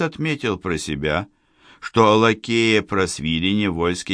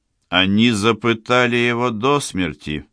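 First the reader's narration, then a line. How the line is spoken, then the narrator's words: Contemptuous, through gritted teeth. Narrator (Russian): презрительно процедил Борис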